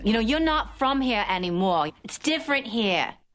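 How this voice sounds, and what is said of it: Attempted Boston accent. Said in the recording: “Boston accents are hard ... So many great actors have come to grief on this accent. I think of Julianne Moore in 30 Rock.”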